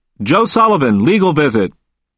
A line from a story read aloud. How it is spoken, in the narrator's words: the officer called out